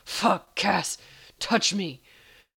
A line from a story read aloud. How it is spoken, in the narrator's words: growling